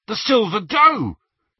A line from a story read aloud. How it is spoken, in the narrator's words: he said excitedly